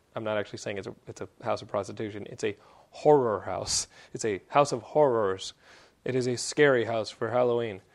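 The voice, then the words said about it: Texan accent. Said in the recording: “my Texan accent”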